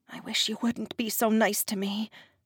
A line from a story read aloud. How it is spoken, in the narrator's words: I mumbled